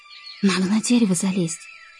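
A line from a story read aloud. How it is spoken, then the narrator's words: Whispered. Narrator (Russian): прошептала Ксюша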